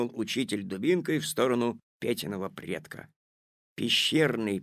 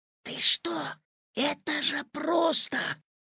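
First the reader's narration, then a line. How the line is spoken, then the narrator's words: Whispered. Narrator (Russian): зашептал Петя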